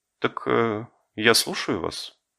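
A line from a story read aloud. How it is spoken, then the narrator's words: Dry reminder. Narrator (Russian): хозяйка сухо напомнила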